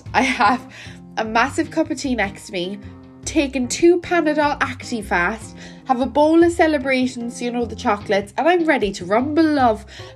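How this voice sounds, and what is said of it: Nasal, congested voice. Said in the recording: “You sound nasally, love. Are you all right? ... I'm a bit sick.”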